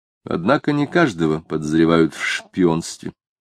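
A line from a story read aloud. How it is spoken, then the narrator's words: Dry. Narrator (Russian): сухо сказал Самгин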